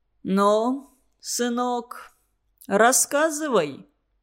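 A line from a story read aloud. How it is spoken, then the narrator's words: Muffled even old man's voice. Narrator (Russian): приглушенно ровным голосом произнес старый Шеломинцев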